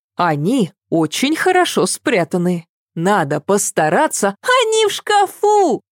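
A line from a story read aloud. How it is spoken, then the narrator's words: Laughing. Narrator (Russian): Засмеялась Ева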